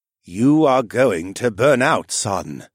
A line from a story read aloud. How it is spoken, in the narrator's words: rumbled wryly